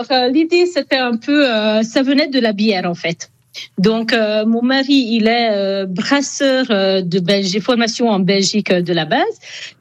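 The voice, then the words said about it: Hungarian accent speaking French. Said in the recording (French): “on entend à votre accent, vous êtes hongroise”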